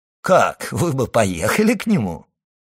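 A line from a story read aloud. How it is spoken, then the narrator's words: Laughing. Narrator (Russian): сказал, смеясь, Дебре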